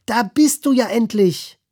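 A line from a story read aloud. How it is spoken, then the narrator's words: Flamingo calling out. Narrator (German): ein Flamingo rief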